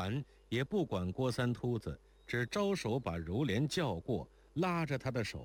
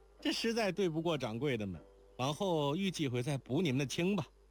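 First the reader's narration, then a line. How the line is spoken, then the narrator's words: Loud. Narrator (Chinese): 莲宝高声道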